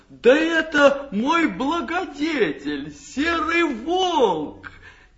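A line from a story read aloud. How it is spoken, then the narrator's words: Shouting. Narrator (Russian): Иван-царевич закричал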